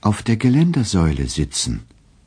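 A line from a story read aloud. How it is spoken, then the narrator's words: Gentle reply. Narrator (German): erwiderte er sanft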